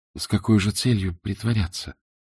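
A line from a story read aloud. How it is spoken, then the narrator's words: Quiet. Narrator (Russian): тихо сказала Варенька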